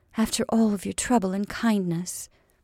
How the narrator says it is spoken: said she, speaking very gently

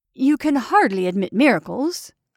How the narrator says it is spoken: I cried

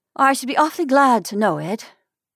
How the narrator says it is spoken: she said wearily

